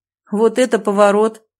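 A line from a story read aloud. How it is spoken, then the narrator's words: Snort. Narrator (Russian): хмыкнул Вовчик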